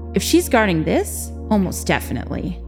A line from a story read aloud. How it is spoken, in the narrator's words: Jin replied